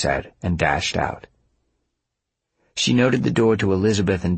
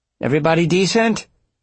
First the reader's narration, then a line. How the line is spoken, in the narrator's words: She called out